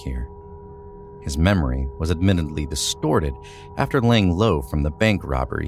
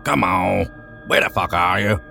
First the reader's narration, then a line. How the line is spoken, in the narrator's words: Sean growled